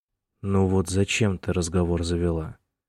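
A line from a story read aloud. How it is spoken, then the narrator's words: Soft grumble. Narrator (Russian): Мягко буркнул он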